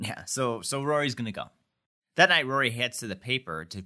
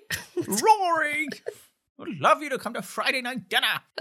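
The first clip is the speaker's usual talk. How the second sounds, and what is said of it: Excited, proper British-accented voice. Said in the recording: “does a really funny impression of Emily being, like, excited, but, like, British and proper”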